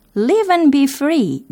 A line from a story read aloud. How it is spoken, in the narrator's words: they cried